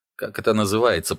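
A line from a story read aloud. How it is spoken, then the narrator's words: Grumbling. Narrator (Russian): проворчал Сато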